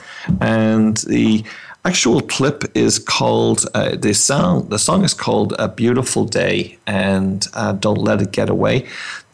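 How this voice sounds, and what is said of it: Irish accent. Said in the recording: “you may tell from my accent that's where I hail from ... an Irish band”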